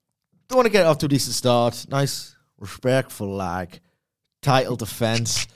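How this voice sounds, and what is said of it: Usual voice. Nothing is said of it.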